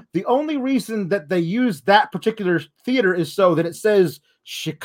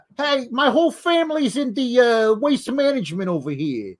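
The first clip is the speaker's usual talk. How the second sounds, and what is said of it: Put-on New York accent. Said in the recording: “he speaks with a New York accent”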